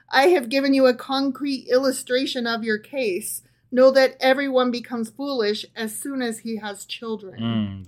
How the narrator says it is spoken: laughed

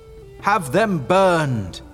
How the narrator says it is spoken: they all shouted

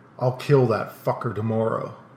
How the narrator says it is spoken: nodded and growled

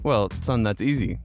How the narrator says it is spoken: the father says

